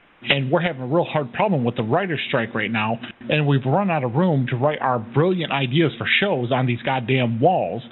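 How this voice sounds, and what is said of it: Affected Hollywood big-shot voice. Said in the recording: “We're big shots from Hollywood, as you can tell by my tone.”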